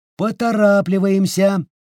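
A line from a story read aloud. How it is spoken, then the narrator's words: Shouted. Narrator (Russian): крикнула она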